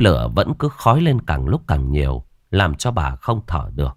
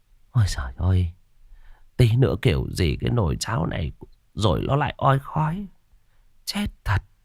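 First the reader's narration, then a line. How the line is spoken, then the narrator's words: Tearful old woman muttering. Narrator (Vietnamese): Bà đưa tay lau nước mắt lẩm bẩm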